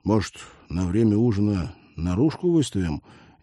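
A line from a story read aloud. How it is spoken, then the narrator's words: Hesitant suggestion. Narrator (Russian): неуверенно предложил Олег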